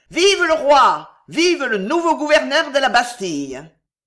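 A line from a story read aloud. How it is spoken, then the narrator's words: Shouted. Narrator (French): Pardaillan cria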